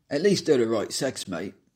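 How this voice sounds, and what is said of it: Cockney accent. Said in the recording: “providing examples of my native British dialects ... Sometimes a bit of Cockney.”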